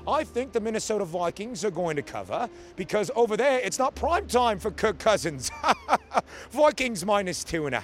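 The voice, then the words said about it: Put-on British English accent. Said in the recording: “using my British accent ... What did you think of my British accent? ... what did you think of my English accent?”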